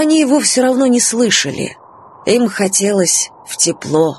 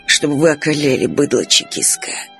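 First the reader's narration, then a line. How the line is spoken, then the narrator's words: Hissed by former officer. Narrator (Russian): прошипел бывший лейб-гвардии штабс-капитан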